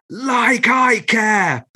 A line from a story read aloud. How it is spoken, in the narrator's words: bellowed Shelley at the top of her voice